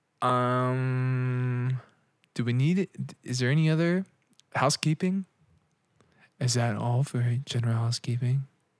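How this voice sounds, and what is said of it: Imitates another person's voice. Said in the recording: “Was that your Sam Harrison impression? ... That was pretty good. That was a good impression.”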